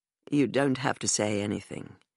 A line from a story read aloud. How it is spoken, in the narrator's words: he murmured into my ear